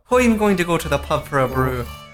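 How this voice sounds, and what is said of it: Fairly good put-on Irish accent. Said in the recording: “In an Irish accent? ... That's pretty good.”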